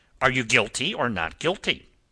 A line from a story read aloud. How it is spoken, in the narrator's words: snapped this peppery gentleman